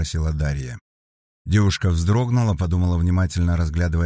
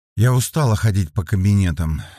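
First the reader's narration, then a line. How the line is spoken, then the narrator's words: Slow, flat, barely restrained. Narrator (Russian): Света говорила неспешно, ровным, почти бесстрастным тоном, однако следователь видела, что девушка едва сдерживается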